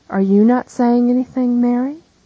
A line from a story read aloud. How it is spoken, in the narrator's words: asks Jesus